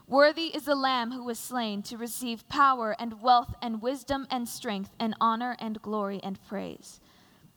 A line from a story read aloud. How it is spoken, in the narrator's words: In a loud voice they were saying